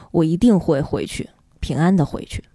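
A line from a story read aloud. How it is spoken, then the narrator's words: Gentle. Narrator (Chinese): 爸爸温柔地说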